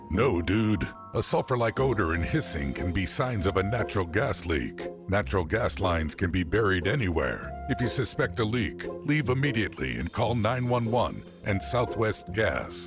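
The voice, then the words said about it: Deep-voiced narrator voice. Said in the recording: “deep voice narrator”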